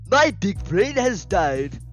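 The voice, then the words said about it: Put-on comic accent. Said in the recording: “let me do it in an accent. Let me do it in an accent.”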